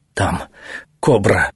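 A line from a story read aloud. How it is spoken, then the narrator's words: Barely audible whisper. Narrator (Russian): чуть слышно прошептал царский советник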